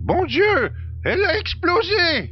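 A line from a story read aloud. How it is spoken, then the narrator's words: Exclamation. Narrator (French): s'exclama le copilote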